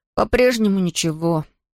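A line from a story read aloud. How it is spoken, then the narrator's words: Forced through clenched teeth. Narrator (Russian): выдавил Том сквозь зубы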